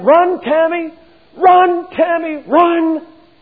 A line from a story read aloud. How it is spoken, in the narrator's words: shouting and screaming, but this mother was determined that she was going to be heard